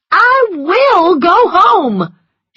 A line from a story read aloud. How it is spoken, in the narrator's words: she cried, tears running down her cheeks